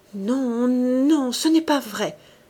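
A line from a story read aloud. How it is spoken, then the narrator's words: Panicked pleading stammer. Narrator (French): balbutia-t-elle, suppliante, affolée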